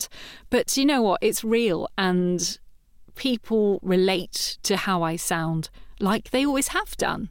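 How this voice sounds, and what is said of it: Slightly creaky voice, mixed accent. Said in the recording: “my voice comes with flaws as well. It's a little bit creaky. It's a bit of a messed up accent.”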